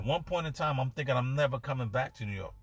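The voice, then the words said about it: New York accent. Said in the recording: “everyone's calling me New York. They can tell by my accent.”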